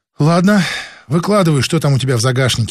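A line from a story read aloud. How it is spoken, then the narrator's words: Sighing. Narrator (Russian): вздохнул и Лукин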